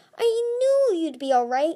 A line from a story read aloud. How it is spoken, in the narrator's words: she cried